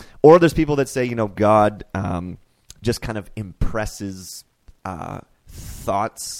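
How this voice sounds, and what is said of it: Usual voice. Nothing is said of it.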